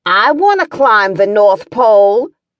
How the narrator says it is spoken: Hannah yelled out

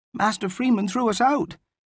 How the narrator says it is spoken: Ivo replied indignantly

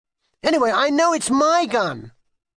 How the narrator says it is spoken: shouted Kitty

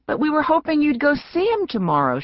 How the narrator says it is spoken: cried

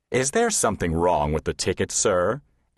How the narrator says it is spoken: asked Hetty Hyssop in her deep, reassuring voice

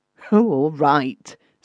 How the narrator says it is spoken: said the youth testily

